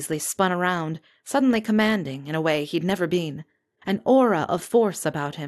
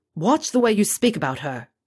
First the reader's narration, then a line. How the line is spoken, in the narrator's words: he snapped